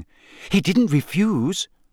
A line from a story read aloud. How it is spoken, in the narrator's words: gasped Hermione